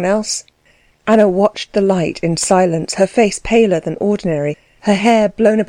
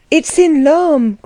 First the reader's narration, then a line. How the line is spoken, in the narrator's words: cried someone with conviction